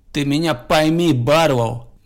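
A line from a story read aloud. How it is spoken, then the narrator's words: Gloomy. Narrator (Russian): мрачно сказал шериф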